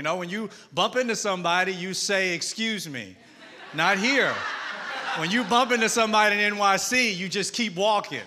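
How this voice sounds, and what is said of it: Southern US twang. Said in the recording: “I'm from Mississippi ... I'm Southern. So if you hear a twang”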